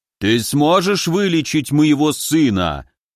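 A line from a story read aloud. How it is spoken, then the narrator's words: Thundering, wall-shaking voice. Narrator (Russian): Прогремел так, что аж стены задрожали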